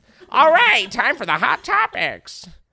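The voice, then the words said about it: Imitates another person's voice. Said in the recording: “my Wendy Williams impression”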